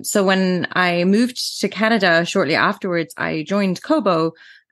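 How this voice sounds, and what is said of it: Mixed Irish English accent. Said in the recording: “I'm from Ireland originally, and which is why my accent is a little bit strange. I also grew up in England, and I've lived in Canada now for almost 12 years.”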